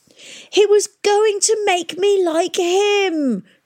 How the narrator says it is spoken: screamed Hesta

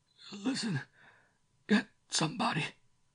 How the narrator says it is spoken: the sick man, making a despairing half-turn, croaking

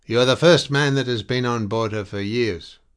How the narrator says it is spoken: the hunchback shouted back in an unexpectedly strong voice

